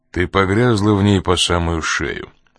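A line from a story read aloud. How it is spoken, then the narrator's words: Cold retort. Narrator (Russian): холодно возразил Коридон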